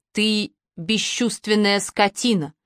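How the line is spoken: Growled. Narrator (Russian): прорычала она

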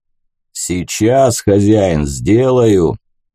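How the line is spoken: Booming bass voice. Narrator (Russian): гулким басом сказал он

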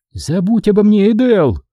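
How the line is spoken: Yell. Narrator (Russian): заорала Куарра

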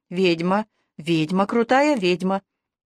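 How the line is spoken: Monotone muttering. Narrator (Russian): Она монотонно забормотала

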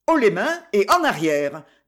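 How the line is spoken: Harsh. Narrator (French): dit-elle durement

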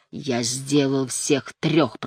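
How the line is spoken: Growling. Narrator (Russian): прорычал он

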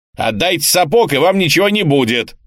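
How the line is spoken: Shouted. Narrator (Russian): крикнул он

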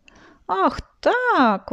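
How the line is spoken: Exclamation. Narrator (Russian): воскликнула фея Вея

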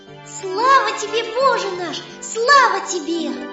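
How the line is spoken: Joyful repeating. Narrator (Russian): повторяет целый день радостно

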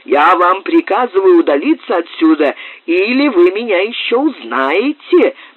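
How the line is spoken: Furious shout. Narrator (Russian): бешено закричал Муре

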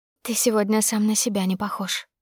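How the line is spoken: Whisper between kisses. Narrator (Russian): шепнула между касаниями губ

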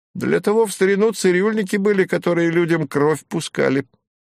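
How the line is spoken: Giggling. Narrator (Russian): хихикнул кудрявый репетитор

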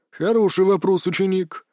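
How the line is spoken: Sighing. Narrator (Russian): вздохнул мастер Маэ

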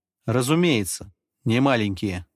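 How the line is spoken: Plain. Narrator (Russian): ответил

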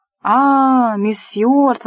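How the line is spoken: Ceremonious flustered exclamation. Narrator (Russian): воскликнул он довольно церемонно, стараясь собраться с мыслями

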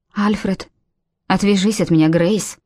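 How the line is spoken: Icy voice. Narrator (Russian): Ледяным голосом сказал Альфред

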